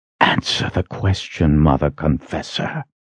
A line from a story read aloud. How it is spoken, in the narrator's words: Shota hissed